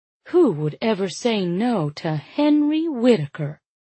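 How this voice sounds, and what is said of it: Thick syrupy Southern-belle accent. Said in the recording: “my voice a thick, syrupy accent”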